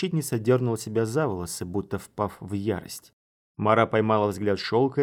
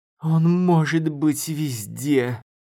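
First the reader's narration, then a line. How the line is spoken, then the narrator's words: Moaning woman. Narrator (Russian): Простонала защитница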